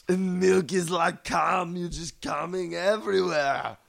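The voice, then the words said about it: Arnold Schwarzenegger Austrian accent impression. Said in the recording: “an offensive little bit of an artistic Austrian license. Accent. ... an offensive Arnold Schwarzenegger accent. ... It's a little more specific than Austrian.”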